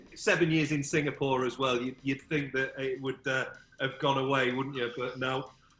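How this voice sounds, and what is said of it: Slight northern English accent. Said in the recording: “You still got a bit of a northern twang.”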